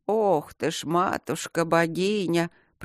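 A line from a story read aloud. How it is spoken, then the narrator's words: Displeased grumbling. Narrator (Russian): проворчала она недовольно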